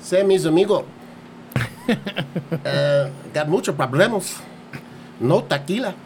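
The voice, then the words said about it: Put-on accent. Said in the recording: “a little bit of an accent”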